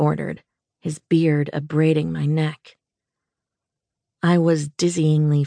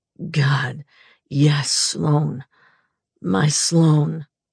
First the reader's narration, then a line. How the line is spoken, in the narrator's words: he groaned